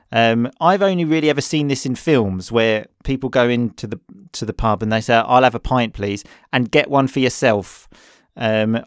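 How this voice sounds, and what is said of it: Essex English accent. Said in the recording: “just my Essex accent”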